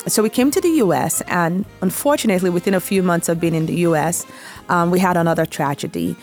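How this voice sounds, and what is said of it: Nigerian accent. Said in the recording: “I was born in Nigeria ... my sexy accent comes from there.”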